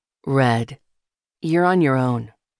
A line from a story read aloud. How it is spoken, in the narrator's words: he said